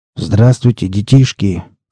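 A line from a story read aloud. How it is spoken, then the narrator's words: Grumbled through beard. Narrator (Russian): проворчал сквозь бороду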